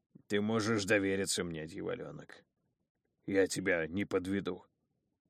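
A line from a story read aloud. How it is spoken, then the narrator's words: Strained, emotion-choked wheeze. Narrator (Russian): просипел Астал каким-то странным голосом, словно от избытка чувств ему сдавило горло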